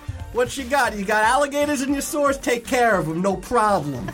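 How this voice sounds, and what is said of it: Put-on New York accent. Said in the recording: “This witcher has adopted a very weird accent ... New York ... from Brooklyn? ... The New York witcher!”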